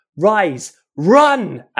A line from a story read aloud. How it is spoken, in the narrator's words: Ash yelled at the top of his voice